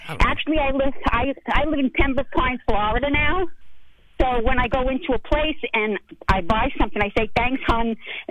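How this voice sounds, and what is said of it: Distinctive regional American accent. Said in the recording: “I love the way you talk, by the way. ... That's a great accent.”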